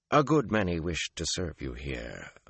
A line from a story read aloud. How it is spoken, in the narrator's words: Mylan murmured